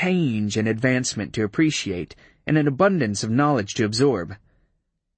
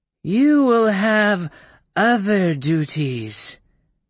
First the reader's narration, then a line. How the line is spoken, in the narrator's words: purred in that triple voice